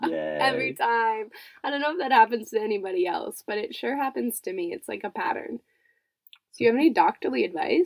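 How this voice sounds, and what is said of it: Stuffed-up, congested voice. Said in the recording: “my voice sounds a little stuffed, it's because I'm getting over this cold.”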